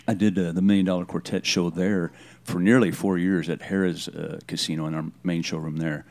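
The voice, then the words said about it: Southern Elvis-like drawl. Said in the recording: “You've even got that Elvis accent ... It's not even intentional ... from being from the South”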